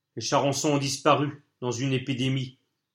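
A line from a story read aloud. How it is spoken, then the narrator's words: Plain. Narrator (French): dit Colline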